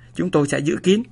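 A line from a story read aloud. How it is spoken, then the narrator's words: Several cheerful voices. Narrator (Vietnamese): Vài giọng hớn hở cất lên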